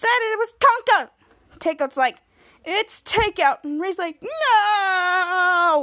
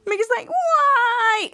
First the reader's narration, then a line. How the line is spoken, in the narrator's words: Danger Force cries